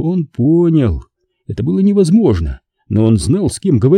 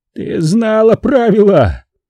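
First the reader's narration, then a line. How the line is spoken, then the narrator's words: Yelling angrily. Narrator (Russian): заорал Бернард на призрака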